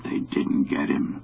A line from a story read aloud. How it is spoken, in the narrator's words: he muttered in his heavy bass voice